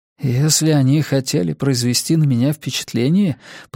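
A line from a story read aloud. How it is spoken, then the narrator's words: Mutter. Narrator (Russian): пробормотал Тео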